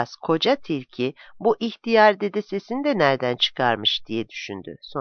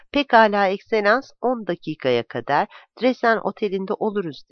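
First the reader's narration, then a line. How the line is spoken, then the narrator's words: Plain. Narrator (Turkish): dedi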